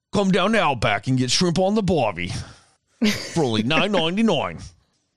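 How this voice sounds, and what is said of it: Put-on Australian accent. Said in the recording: “Even had the Australian accent. I was all, good day, mate ... That is uncanny, that accent ... I sadly sound just like the guy off the fucking Outback like commercials back in the day”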